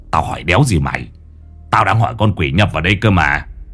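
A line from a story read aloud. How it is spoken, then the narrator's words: Grumbling. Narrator (Vietnamese): Lão Năm cằn nhằn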